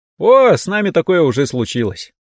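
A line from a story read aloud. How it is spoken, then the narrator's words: Chuckling. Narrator (Russian): хохотнул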